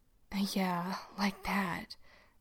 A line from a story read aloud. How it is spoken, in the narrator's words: Dean mutters